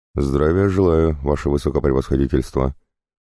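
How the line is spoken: Dry curt greeting. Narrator (Russian): сухо откозырял Шувалов

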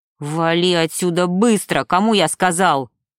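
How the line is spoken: Barked. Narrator (Russian): рявкнул Макс

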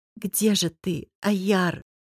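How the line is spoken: Whisper. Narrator (Russian): прошептала я

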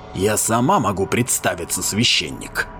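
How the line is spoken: Harsh hoarse female voice. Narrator (Russian): сказала женщина, ее голос был резким и хриплым

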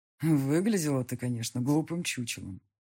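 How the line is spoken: Quiet. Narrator (Russian): сказал мне негромко Матвей

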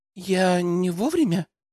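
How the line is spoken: Thin little voice. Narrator (Russian): Тоненьким голоском поинтересовалась Алена

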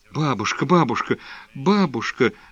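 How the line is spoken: Babbling into ear. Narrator (Russian): залепетал Нилушка ей в ухо

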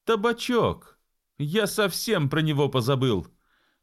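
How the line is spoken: Exclaimed. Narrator (Russian): воскликнул капитан Боб

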